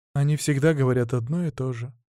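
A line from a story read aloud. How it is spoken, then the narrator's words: Sad sigh. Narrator (Russian): грустно вздохнула Мария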